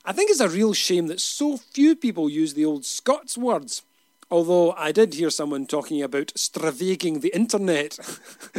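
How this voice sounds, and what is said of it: Glasgow Scottish accent. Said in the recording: “I'm not from around these parts, you know. You may have noticed my accent. Glasgow, through and through.”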